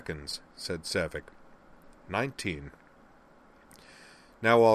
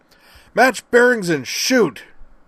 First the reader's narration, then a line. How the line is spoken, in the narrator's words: Griffin roared